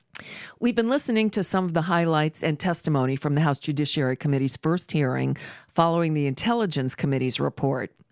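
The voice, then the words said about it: Sick-sounding, strained voice. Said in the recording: “I apologize for my voice. I'm getting over a bout of the flu, so doing my best to make it through the hour.”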